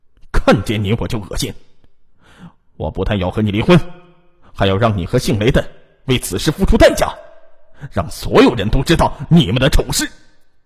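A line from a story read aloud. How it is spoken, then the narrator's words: Cold reply. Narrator (Chinese): 李正坤是冷冷的回答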